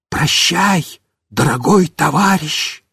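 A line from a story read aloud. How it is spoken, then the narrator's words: Whisper. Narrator (Russian): Мишка снова прошептал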